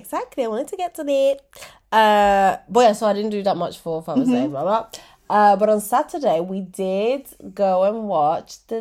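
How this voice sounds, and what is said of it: Congested, stuffed-up voice. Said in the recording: “you might hear it from my voice. I'm not feeling very well. ... you sound a little bit bonged up”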